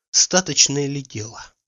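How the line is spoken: Whisper. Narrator (Russian): говорил шепотом Обломов

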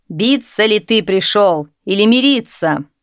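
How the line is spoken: Shout. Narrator (Russian): крикнул ему

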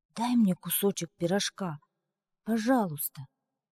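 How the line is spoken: Child whispering. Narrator (Russian): Внук прошептал

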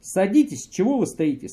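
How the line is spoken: Plain. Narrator (Russian): сказал профессор

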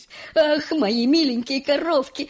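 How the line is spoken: Tender, fond exclamation. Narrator (Russian): умильно воскликнул мистер Уонка

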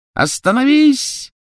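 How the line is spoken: Shrill shout. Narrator (Russian): пронзительно крикнула Беллатриса

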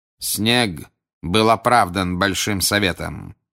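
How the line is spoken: Cold. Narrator (Russian): холодно произнес Крауч

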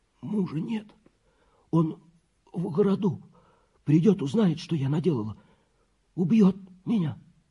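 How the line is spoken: Hoarse voice. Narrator (Russian): хриплый голос, который говорил

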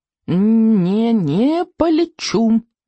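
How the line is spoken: Squeaky dragon voice. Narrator (Russian): пищал дракон

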